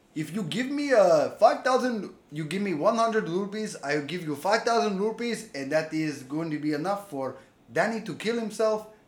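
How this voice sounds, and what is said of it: Exaggerated put-on foreign accent. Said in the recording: “this is my Irish prince accent ... That's not even an Indian accent ... Let's call that Spanish. That was a Spanish accent.”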